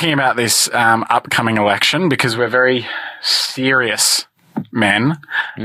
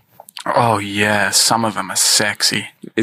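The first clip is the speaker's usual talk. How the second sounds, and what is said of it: Put-on low sultry voice. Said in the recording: “sexy voice ... Got a lozenge stuck in your throat.”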